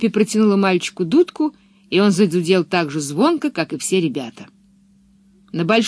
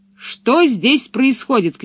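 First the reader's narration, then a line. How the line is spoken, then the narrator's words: Shout. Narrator (Russian): крикнул он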